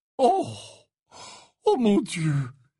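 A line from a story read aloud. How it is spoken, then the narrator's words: Sighing. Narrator (French): soupira Slughorn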